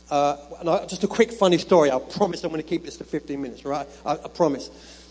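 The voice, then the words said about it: Speaks with a noticeable foreign accent. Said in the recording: “I've got the weird accent”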